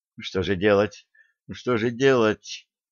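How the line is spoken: Feverish muttering. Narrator (Russian): лихорадочно бормотала королева

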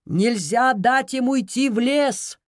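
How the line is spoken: Shouted. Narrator (Russian): крикнул Гиацинт

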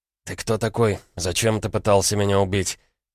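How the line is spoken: Quiet question. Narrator (Russian): тихо спросил Егор

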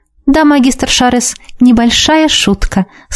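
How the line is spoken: Sweet-voiced agreement. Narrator (Russian): сладким голосом согласилась с ним

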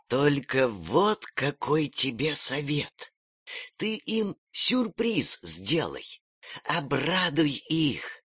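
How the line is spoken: Whispered. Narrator (Russian): прошептала

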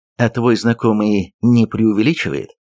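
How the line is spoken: Plain. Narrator (Russian): спросил я

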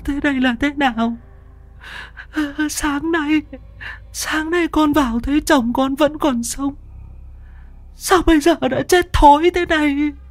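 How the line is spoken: Broken, tearful whimper. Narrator (Vietnamese): Mụ Xuân suy sụp, miệng mếu máo

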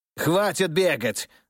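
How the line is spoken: Shouting. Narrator (Russian): закричал предатель

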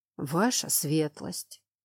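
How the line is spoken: Heavy sigh. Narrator (Russian): Он так тяжело вздохнул

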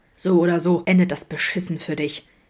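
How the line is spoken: Gasping. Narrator (German): japste Adam

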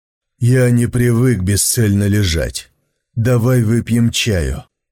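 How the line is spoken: Sighing. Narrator (Russian): вздохнул он

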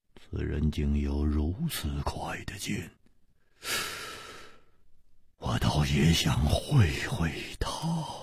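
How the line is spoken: Excited murmur. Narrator (Chinese): 薛衣人的脸上好像泛起了一种兴奋的红光，他喃喃地说

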